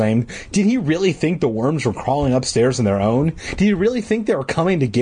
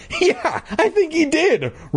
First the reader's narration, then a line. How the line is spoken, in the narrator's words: Regina said through her scornful laughter